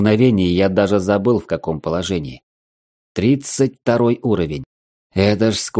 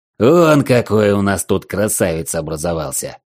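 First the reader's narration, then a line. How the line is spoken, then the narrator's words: Big man's growl. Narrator (Russian): рыкнул здоровяк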